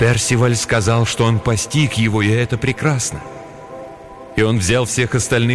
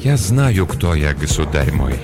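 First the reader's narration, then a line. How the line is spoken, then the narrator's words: Soft, gentle. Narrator (Russian): мягко произнес Ланселот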